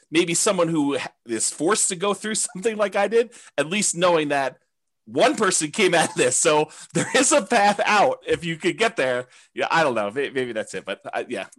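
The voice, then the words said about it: Teary, emotional voice. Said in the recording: “getting teary-eyed”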